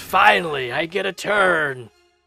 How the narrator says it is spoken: the Haku lets out a roar and says

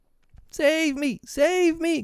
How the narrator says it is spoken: cried Nibs

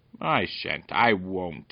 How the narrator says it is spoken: barked the dog

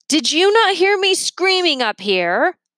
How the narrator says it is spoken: Leo yelled

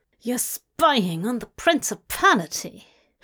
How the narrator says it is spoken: Dagon hissed

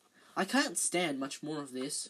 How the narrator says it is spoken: Ron muttered, his teeth chattering

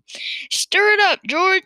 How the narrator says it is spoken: shouted

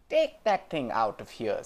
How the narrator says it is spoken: said Mrs

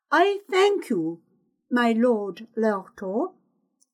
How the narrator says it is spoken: she said in a firm, clear voice

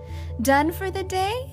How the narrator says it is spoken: called brightly, or asked brightly

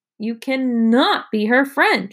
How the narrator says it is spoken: shouted Evan

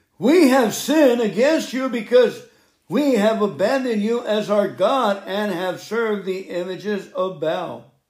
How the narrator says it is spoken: they cried out to the Lord, saying

